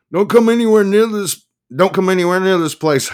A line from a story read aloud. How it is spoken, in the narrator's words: shouted